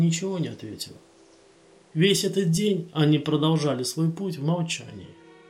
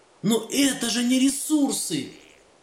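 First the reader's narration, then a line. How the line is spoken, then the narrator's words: Heated exclamation. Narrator (Russian): горячо воскликнул он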